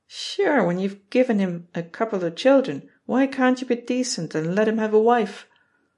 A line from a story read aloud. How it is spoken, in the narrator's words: Murphy will chuckle